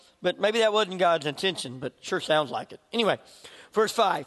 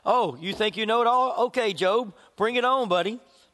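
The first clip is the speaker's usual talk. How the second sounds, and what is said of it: Sarcastic mocking tone. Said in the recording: “being sarcastic ... I would be like totally being sarcastic,”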